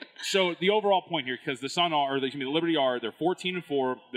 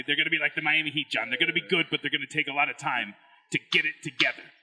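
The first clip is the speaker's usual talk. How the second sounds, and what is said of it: Imitates another person's voice. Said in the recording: “It's a good Parles impression. ... It was pretty good.”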